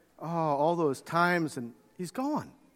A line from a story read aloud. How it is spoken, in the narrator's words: John kind of quietly said